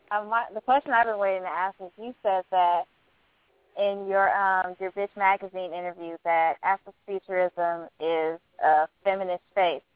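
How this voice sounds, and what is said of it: Congested, stuffy voice. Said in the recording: “I have a cold.”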